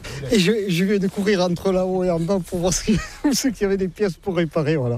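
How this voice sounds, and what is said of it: Southwestern French regional accent. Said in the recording (French): “comme vous l'entendez, je ne suis pas de la région ... Avec mon accent, je ne suis pas de la Loire, non. Je suis des Landes”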